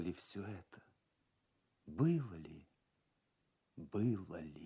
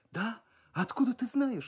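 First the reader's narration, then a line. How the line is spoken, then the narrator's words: Frightened surprise. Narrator (Russian): испуганно удивлялась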